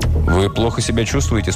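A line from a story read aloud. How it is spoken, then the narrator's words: Plain. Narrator (Russian): спросил он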